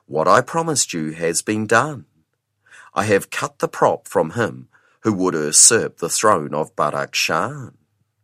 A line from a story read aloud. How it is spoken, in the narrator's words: she spoke calmly